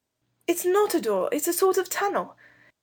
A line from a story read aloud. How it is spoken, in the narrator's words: Robert cried to the girls